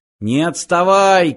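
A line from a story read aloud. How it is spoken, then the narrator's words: Shout. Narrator (Russian): крикнул Фыф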